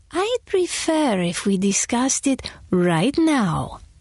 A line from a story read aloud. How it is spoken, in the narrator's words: cooed